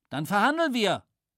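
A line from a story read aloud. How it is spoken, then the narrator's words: Calling out. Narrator (German): rief Flieger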